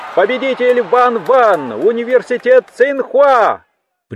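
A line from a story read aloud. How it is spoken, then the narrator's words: Announcer's habitual shout. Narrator (Russian): привычно прокричал комментатор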